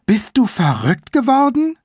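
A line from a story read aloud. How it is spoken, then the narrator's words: Gasping. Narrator (German): keuchte sie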